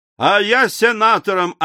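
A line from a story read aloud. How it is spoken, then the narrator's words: Yelling. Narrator (Russian): орал Николь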